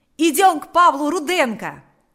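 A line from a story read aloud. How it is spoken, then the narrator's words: Shouted. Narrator (Russian): закричал Панас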